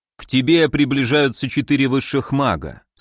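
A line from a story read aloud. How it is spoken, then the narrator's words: Calm warning. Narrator (Russian): спокойно предупредил он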